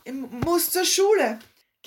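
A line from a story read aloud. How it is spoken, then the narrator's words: Stammering. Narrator (German): stotterte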